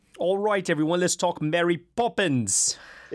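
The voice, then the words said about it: Put-on British accent. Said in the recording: “Is that your start with Bert or Admiral Boone? Accent? ... A little bit of both, I'd say.”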